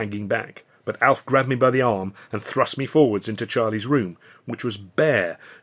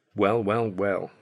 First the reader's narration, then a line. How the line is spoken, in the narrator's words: Charlie said quietly